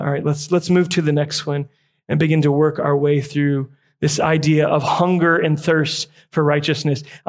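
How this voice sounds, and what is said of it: Slightly raspy, strained voice. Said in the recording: “It's kind of getting a little raspy up here singing and then preaching.”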